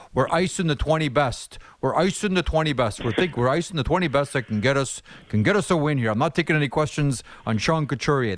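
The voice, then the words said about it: Imitates another person's voice. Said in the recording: “my really bad impression of John Tortorella”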